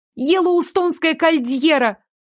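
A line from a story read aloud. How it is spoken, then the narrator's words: Yelling reply. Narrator (Russian): заорала в ответ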